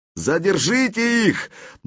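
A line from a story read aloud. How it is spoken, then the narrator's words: Straining shout. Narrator (Russian): напрягая горло, выкрикнул князь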